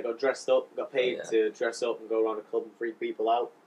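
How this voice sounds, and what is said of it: Posh yet northern English accent. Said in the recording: “my accent's a little bit like special ... I'm a little bit posh, but a little bit northern.”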